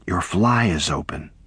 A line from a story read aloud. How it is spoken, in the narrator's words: whispered Edipa